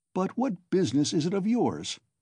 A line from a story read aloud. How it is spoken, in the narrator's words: Razumihin cried with annoyance